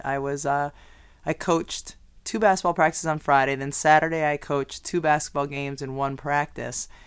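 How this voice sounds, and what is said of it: Hoarse, strained, nearly lost voice. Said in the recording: “As anyone can hear from the sound of my voice, it's not normal. I lost my voice this past weekend... I could tell that I was losing my voice”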